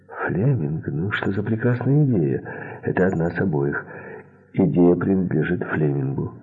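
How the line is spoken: Plain. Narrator (Russian): сказала Эдта

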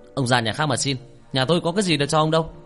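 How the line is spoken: Shout. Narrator (Vietnamese): Nó quát

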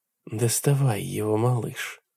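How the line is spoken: Dry-lipped whisper. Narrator (Russian): шепнула она пересохшими губами

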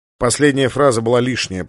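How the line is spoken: Grumble. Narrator (Russian): проворчал Сандерс

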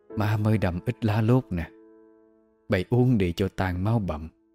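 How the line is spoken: Soft, weary voice. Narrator (Vietnamese): Bà nói khẽ, giọng mệt rã

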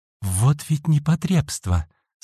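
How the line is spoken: Fierce whisper. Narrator (Russian): С ожесточением прошептала Отоми

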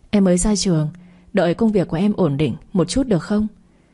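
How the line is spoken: Smiling, coaxing. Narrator (Vietnamese): Tôi mỉm cười, nũng nịu

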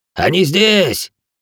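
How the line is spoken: Barking. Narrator (Russian): Пинь рявкнул

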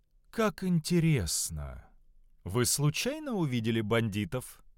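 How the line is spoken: Calm question. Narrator (Russian): спокойно спросил Доминос

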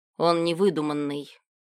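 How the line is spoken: Displeased grumble. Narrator (Russian): недовольно пробурчал Милош

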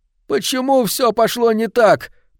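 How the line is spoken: Moan. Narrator (Russian): простонал Финчли

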